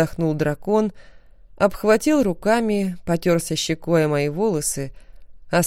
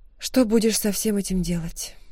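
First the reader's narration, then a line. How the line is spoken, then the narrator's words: Quiet question. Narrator (Russian): тихо спросила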